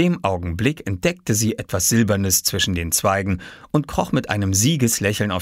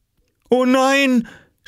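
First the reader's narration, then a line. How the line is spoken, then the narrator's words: Mother groaning. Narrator (German): stöhnte Mama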